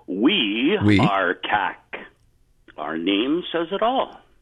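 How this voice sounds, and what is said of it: Put-on radio announcer voice. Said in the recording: “my best radio voice”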